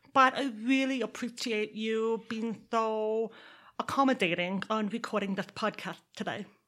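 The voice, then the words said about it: Deaf speech with Texas accent. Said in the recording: “That's why I am deaf, which is also why I have this accent. When you are deaf and you're born in Texas, you put those two together and this is what comes out.”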